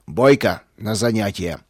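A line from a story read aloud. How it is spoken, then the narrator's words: Male growl. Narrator (Russian): рыкнул он на меня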